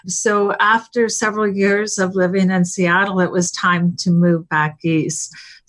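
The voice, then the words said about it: Slight Canadian accent. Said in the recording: “You've probably picked up a Canadian accent. ... A little bit. ... I do hear it. ... A little of the out and about.”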